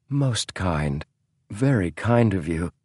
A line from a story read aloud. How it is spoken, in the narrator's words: James distantly heard his own voice muttering